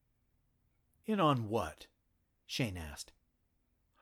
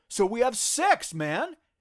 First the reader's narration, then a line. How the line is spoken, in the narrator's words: Shane exclaimed, almost rising out of his chair